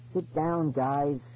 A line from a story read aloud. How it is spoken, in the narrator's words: he pleaded again